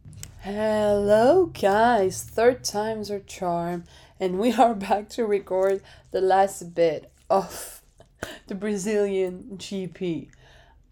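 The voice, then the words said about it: Hoarse, sick, tired voice. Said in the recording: “my voice is long gone... I'm gonna probably cough a lot... I'm sick as hell... I am fucking tired.”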